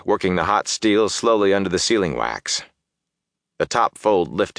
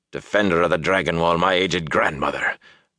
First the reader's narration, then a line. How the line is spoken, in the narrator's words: Doman croaked